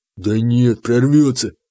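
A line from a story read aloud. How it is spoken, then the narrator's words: Tense voice. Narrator (Russian): сказал Заур напряженным голосом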